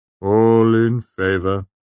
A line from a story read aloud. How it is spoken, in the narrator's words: said wearily